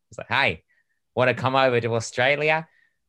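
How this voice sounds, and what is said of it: Put-on Australian accent. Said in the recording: “that's my Australian accent.”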